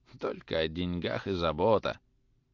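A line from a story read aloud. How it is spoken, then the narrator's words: Grumbling. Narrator (Russian): ворчал Илья Ильич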